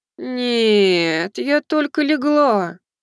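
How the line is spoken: Moaning. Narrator (Russian): простонала Хотару

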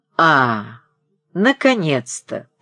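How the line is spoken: Grumbling through teeth. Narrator (Russian): проворчал сквозь зубы Крижов

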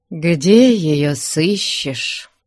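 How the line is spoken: Sad. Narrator (Russian): печально молвил Иван Григорьевич

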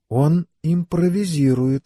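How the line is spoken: Whispered. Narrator (Russian): прошептала Элейн

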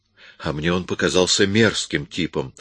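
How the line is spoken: Cold reply. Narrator (Russian): ответила она холодно

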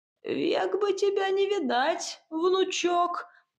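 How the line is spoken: Creaky voice. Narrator (Russian): проскрипела я

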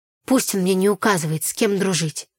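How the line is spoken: Angry. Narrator (Russian): Сердито проговорила я

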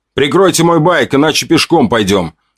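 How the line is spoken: Shouting back. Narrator (Russian): крикнул им в ответ

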